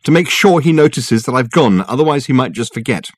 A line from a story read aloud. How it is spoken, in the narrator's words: she said, staring angrily